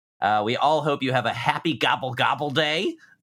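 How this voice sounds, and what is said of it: Turkey gobbling impression. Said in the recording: “That's my turkey impression. ... It's really hard to make that a horny sound.”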